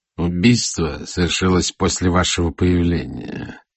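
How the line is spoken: Through gritted teeth. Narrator (Russian): сказал полковник сквозь зубы

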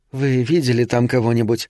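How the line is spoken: Plain. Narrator (Russian): спросила Гейл

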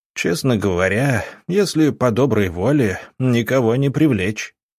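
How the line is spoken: Smirking grunt. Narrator (Russian): хмыкнул Гробовский

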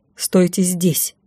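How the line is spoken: Stern warning. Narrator (Russian): Строго предупредила

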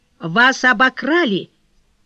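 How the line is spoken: Very loud outcry. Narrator (Russian): вскричал кассир так громко

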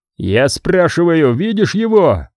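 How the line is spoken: Shouting. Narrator (Russian): закричал Авдей

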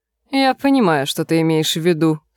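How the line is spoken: Plain. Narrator (Russian): сказал Хиггс

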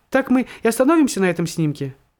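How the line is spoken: Squeaking girl. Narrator (Russian): Фотодевушка пискнула

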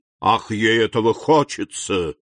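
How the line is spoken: Ominous tone. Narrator (Russian): сказал Вильфор зловещим тоном

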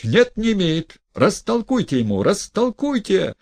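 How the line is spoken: Shouting. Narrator (Russian): кричал Гаганов

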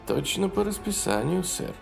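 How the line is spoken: Quiet. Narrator (Russian): тихо сказал капитан Ю

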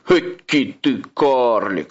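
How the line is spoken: Troll's snort. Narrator (Russian): хмыкнул тролль

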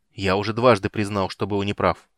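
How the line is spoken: Irritated reply. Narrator (Russian): раздраженно откликнулся полуэльф

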